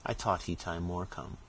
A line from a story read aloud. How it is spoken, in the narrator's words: Caesar after looking timidly round the room, remarked